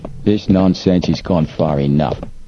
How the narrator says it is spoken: the man said angrily

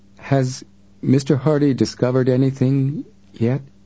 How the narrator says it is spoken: Robinson said to Frank hesitantly

